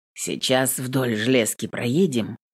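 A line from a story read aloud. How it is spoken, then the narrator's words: Hoarse explanation. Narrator (Russian): поясняет Паша хрипло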